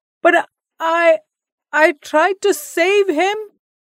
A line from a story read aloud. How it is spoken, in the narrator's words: Shyam spluttered